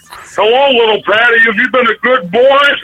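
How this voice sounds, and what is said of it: Hoarse Santa character voice. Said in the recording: “Santa's a little hoarse.”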